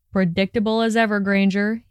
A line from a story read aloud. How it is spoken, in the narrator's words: he slurred